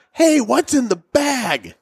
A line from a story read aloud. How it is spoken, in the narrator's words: Phil, at the top of his lungs, screams